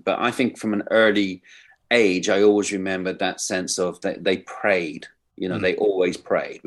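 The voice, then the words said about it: English accent. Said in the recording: “I'm from Ireland originally, although I have an English accent.”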